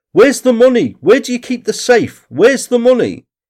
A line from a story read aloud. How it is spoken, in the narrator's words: The men demanded, shouting